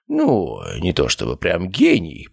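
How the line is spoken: Thoughtful, hesitant. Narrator (Russian): произнес Степан Митрофанович задумчиво, словно размышлял, говорить мне это или нет

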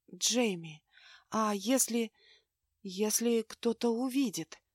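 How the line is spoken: Halting whisper. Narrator (Russian): прерывисто шептала Аврора

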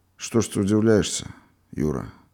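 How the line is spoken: Dejected, subdued voice. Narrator (Russian): Продолжал рассказчик, упавшим голосом продолжал

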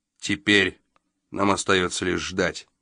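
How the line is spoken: Plain. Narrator (Russian): сказал он

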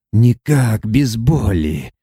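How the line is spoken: Hoarse speech. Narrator (Russian): хрипло проговорил он

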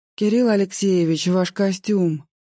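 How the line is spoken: Forced out, nervous. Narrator (Russian): выдавила я

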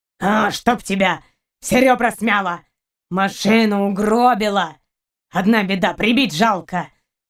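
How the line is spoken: Continued growling. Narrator (Russian): Продолжал рычать каранец

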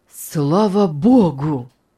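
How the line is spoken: Relieved exclamation. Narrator (Russian): наконец воскликнул Артур

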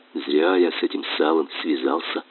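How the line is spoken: Quiet sigh. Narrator (Russian): вздохнул потихоньку капитан

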